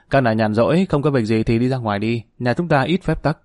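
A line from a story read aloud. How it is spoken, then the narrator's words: Laughing heartily. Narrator (Vietnamese): Dương Lăng không khỏi bật cười ha hả nói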